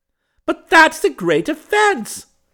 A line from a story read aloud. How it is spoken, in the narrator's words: cried the kinglet